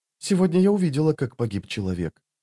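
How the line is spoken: Quiet speech. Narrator (Russian): тихо проговорила Ваза

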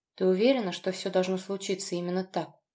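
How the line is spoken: Muffled, breathless question. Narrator (Russian): глухо спросил я, пытаясь выровнять сбившееся дыхание

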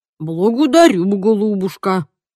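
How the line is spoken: Mutter. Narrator (Russian): пробормотал сэр Освальд

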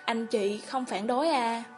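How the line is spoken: Mother sighing. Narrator (Vietnamese): Mẹ Mạnh Thời thở dài nói

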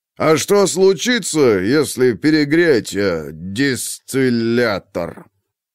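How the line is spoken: Savoring drawl. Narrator (Russian): Протянул Клитий, смакуя каждую букву

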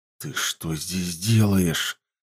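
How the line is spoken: Hissing. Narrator (Russian): зашипел толмач

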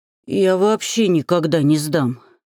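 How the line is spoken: Hoarse wheeze, half-gnome. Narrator (Russian): прохрипел полугном

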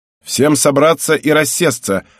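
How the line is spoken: Barked command. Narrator (Russian): рявкнул Нода

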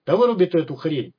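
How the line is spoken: Barked. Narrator (Russian): через плечо рявкнул Маргарину смычок

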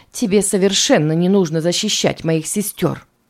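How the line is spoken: Grumbling. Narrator (Russian): проворчала Берни

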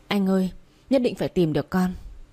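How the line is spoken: Trembling voice. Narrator (Vietnamese): Tôi run run nói

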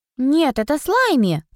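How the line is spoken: Offended. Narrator (Russian): обиженно объяснила Ода

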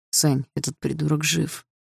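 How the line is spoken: Through gritted teeth. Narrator (Russian): процедил сквозь зубы Игорь

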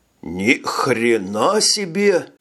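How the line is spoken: Exclamation with a chuckle. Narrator (Russian): воскликнул Хольмер и даже хохотнул

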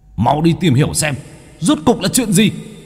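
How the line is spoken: Angry group roar. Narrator (Vietnamese): bốn kẻ kia gầm lên tức giận

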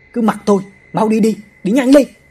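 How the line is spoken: Shouting. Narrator (Vietnamese): Ông chồng hét lên

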